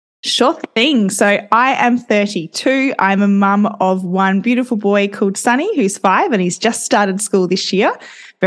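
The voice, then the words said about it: Australian accent. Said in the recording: “I am an Aussie, if you haven't picked that up already”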